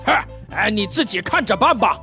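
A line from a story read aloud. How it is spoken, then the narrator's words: Angry boss. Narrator (Chinese): 领导大裤衩怒气冲冲地走进办公室，对一个实习生萌妹子一顿批评，最后说了一句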